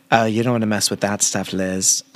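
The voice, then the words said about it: Poor imitation of character's accent. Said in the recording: “I want to do Jenna. It's the only accent that I can kind of do and it's still terrible.”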